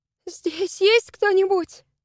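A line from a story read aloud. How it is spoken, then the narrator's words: Trembling voice. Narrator (Russian): спросила она дрожащим голосом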